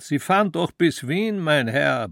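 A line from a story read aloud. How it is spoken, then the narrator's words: Bellowing. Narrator (German): brüllte der Kondukteur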